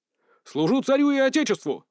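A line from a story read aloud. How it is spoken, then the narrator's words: Loud bark across parade ground. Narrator (Russian): Рявкнул на весь плац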